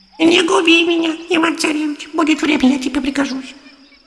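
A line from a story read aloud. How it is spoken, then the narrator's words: Hare speaking in human voice. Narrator (Russian): заяц говорит ему человеческим голосом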